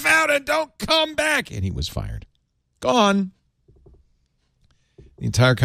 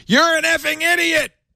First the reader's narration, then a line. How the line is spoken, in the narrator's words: Musk shouted back